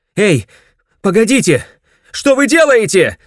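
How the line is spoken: Shouting. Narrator (Russian): закричал

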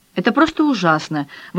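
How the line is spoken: Indignant exclamation. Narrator (Russian): возмущенно воскликнула Кароль

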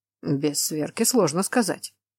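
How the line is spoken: Mumbling. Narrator (Russian): пробормотал Тамаш

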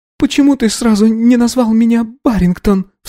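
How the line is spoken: Sobbing question. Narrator (Russian): всхлипнув, спросила Анна

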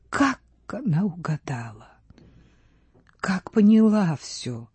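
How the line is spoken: Whispered. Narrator (Russian): шепнула пани Рудецкая

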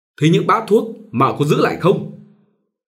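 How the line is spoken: Angry suspicious woman asking. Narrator (Vietnamese): đổi ngay sắc mặt giận dữ, nghi ngờ bà hỏi

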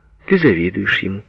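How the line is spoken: Calm. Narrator (Russian): спокойно сказала Лена

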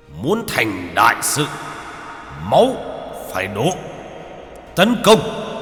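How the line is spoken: Army roaring together. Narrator (Vietnamese): Đội quân bên dưới như được tiếp thêm sức mạnh, tất cả đưa vũ khí lên trời mà gào thét

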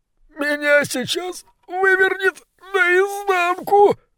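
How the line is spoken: Pleading. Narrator (Russian): взмолился крысолов номер один

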